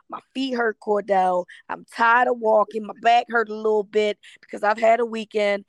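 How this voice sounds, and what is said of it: Worn-out, strained voice. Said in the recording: “clearly you can tell my voice is dying”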